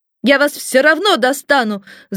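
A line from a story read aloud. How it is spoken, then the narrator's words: Shout. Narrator (Russian): закричал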